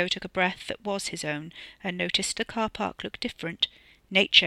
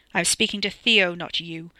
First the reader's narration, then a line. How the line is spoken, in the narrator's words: the man snapped sternly